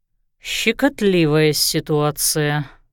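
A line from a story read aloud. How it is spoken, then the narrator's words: Sighing. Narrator (Russian): вздохнул Лещинский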